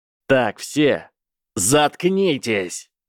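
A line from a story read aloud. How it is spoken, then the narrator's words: Roaring. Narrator (Russian): проревел Гарри Поттер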